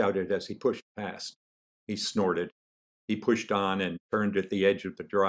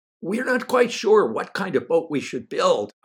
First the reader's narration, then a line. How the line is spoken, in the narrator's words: I shouted on his next pass